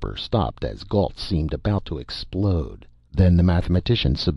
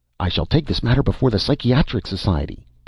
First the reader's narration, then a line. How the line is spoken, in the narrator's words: Pillbot was saying excitedly